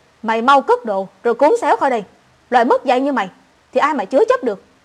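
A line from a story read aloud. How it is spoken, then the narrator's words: Harsh shout. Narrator (Vietnamese): bà ta quát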